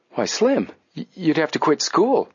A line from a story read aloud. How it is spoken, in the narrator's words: Joe cried out